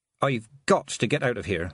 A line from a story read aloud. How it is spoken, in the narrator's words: she muttered